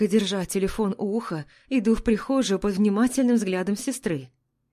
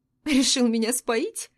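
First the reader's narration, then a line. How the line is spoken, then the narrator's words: Sobbing. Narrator (Russian): Всхлипываю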